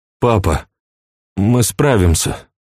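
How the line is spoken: Mumbling. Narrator (Russian): промямлил Эдуард

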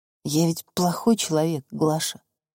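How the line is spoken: Quiet speech. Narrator (Russian): тихо сказал Федор

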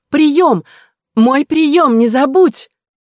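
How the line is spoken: Shouting over street noise. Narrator (Russian): кричала, стараясь перекрыть рев улицы

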